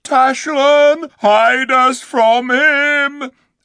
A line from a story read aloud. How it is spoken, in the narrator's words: The beasts moaned and howled and called out